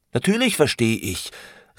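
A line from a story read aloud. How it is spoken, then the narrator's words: Exclaimed. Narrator (German): rief Franz aus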